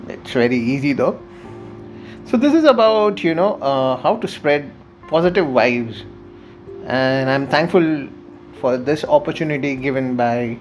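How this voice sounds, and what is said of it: Indian English accent. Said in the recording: “from my accent, you did figure that I am from India.”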